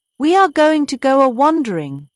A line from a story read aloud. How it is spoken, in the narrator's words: cried Toad